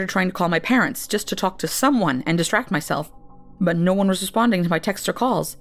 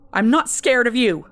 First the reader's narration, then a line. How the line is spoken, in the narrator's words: I shouted to the emptiness